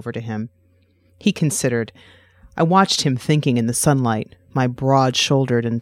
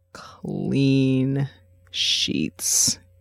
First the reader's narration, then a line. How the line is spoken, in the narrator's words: drawled out, smiling